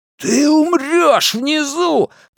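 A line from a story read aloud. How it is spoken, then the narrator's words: Roar. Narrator (Russian): проревел Генри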